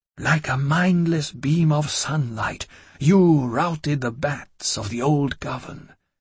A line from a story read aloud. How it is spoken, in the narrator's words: he whispered